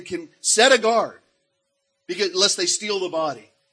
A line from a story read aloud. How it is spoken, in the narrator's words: They begged guards from Pilate, saying